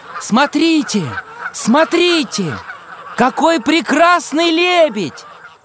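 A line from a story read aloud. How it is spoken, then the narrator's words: Excited children shouting. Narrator (Russian): Ребята восторженно закричали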